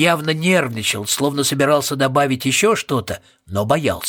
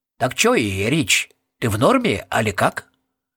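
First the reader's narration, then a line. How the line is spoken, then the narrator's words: Quiet, after pause. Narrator (Russian): Роб помолчал и тихо добавил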